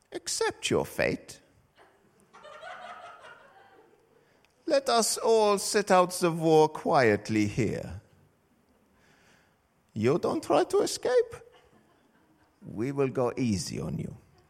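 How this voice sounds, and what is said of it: Put-on vaguely German accent. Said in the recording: “I want to know who to be embarrassed by by this accent ... That was vaguely German”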